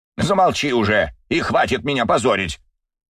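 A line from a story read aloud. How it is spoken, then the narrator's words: Pained bark. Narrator (Russian): рявкнул Юрий Викторович, скривившись от боли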